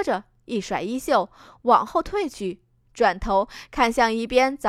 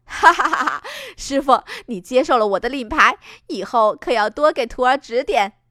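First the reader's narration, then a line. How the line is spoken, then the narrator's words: Laughing. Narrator (Chinese): 风夕颜笑着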